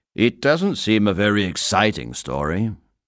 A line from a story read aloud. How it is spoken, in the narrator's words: he said impatiently